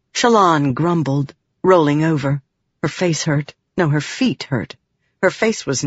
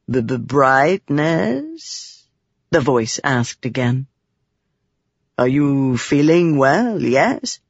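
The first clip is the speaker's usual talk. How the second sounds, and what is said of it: Character voice with foreign accent. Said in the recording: “That was a Thalen accent.”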